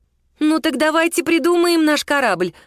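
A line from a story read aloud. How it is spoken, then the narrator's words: Exclamation. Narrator (Russian): воскликнула Лиза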